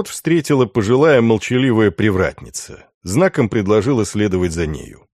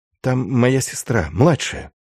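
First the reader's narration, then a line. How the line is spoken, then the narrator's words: Whispered. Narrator (Russian): шепнул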